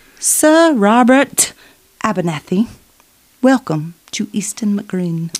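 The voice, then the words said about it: Put-on English accent. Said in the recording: “Just that in your best English voice. ... It's my English accent.”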